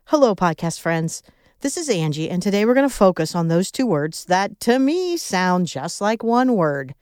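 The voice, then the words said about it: Midwestern American accent. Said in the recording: “my Midwest accent”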